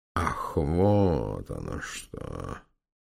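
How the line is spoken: Baron muttering. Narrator (Russian): пробормотал барон

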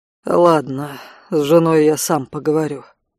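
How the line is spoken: Sighing. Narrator (Russian): вздохнул Алан

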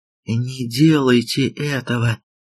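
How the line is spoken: Whispered. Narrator (Russian): прошептала

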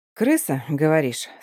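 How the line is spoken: Calm reply. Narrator (Russian): спокойно отвечаю я

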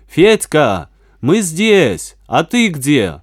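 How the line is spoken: Shouting. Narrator (Russian): Веня закричал

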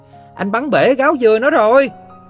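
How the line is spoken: Yelled. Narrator (Vietnamese): Thằng Dế ác nhân ... còn la lên

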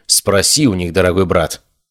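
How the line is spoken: Cold reply. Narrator (Russian): холодно ответила девушка

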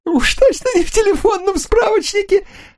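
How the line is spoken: Laughing. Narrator (Russian): Руфа расхохотался, но быстро стих

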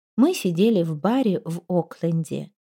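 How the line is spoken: Quiet. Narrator (Russian): тихо сказала

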